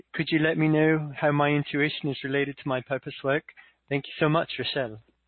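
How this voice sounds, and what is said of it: Put-on Australian accent. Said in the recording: “Thanks for doing that in Australian accent.”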